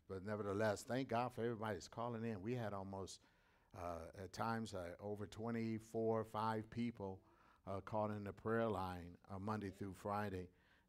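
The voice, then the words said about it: Slightly raspy voice. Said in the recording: “my voice might be a little raspy.”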